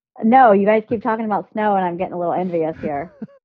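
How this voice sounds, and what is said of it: Southern twang accent. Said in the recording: “you've got a great twang going on. I'm from the South. It's nice to hear that twang.”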